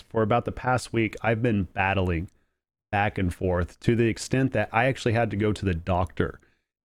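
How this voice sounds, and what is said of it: Nasal, sniffly congested voice. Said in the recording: “I sound a little nasally, a little sniffly ... my allergies are just off the charts”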